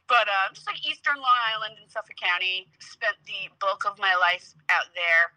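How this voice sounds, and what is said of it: Thick Long Island accent. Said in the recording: “I am a Long Island girl, and you can hear it in my accent when I speak... it's such a thick accent”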